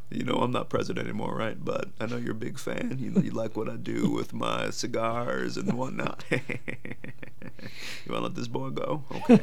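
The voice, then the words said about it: Southern Bill Clinton impression. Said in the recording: “Bill Clinton ... from the South ... That's how he speaks.”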